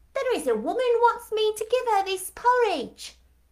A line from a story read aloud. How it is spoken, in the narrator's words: she exclaimed